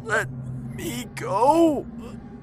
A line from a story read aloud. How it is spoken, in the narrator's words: I gasped